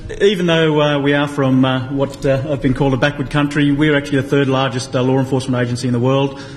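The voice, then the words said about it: Australian accent. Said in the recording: “The very southern accent, the land down under.”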